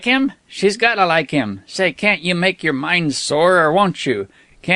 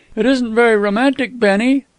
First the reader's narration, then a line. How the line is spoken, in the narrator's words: sighed Miss Scobell